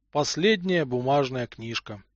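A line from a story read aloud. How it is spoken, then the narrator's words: Father speaking sadly. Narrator (Russian): печально произнес отец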